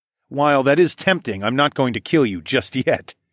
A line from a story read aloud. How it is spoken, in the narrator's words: I chuckled